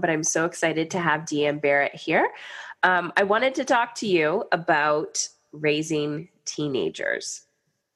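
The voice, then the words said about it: Deep, slightly off voice. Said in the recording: “my voice is a little off ... I have the deep, sexy voice going on”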